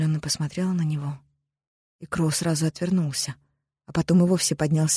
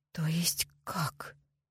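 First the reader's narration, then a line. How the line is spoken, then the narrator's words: Forced out with difficulty. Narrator (Russian): наконец смогла выдавить Грей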